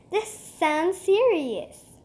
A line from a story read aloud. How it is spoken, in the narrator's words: said Cecil